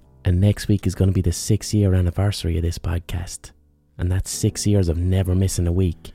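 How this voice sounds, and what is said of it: Congested, clogged-up voice. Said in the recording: “it hurts to speak ... my stupid fucking clogged up voice this week”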